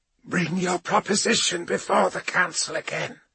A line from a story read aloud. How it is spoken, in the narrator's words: said Tevera, her lungs rasping